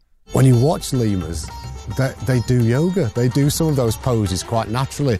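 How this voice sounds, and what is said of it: English accent. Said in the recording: “the guy's got an English accent.”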